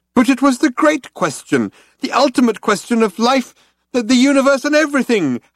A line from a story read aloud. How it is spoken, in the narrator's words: howled Loonquall